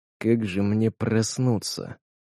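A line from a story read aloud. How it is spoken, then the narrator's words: Whispered. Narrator (Russian): прошептал маг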